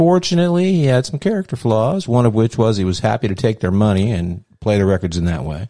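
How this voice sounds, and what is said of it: Usual voice. Nothing is said of it.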